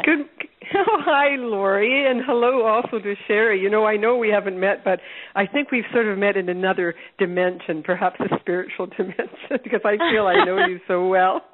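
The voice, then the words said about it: Husky, congested voice. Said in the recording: “I have a bit of a cold. I'd like everybody to think I've just got a sexy voice, but really, I've got a cold.”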